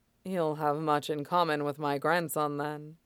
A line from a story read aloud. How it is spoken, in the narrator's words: Shidan said dryly